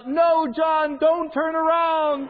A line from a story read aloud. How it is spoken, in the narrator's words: somebody in the theater yells out